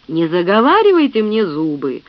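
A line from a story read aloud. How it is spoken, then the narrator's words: Through gritted teeth. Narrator (Russian): процедил Фред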